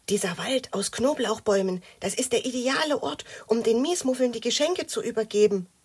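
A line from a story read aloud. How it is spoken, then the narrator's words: Whisper. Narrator (German): flüsterte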